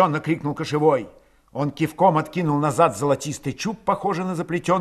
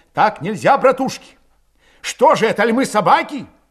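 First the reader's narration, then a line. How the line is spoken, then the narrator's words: Shouted. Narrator (Russian): крикнул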